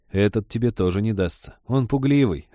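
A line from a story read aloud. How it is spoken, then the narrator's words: Laughing. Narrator (Russian): рассмеялся Женька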